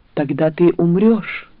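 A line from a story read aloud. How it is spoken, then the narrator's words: Breathed out. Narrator (Russian): выдохнула она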